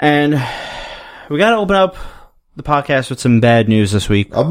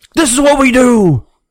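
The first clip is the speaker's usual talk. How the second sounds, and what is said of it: Imitates another person's voice. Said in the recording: “It's Mark Henry. ... You're not black enough for that Mark Henry impression.”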